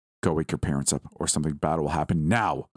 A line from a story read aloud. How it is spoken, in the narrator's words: said the last word so sharply that it shook the windows